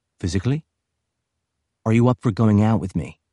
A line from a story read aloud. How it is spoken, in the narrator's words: Her voice was firm and dignified